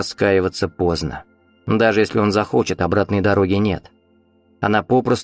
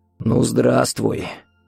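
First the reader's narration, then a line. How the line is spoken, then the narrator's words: Hoarse rasp. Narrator (Russian): прохрипел Виктор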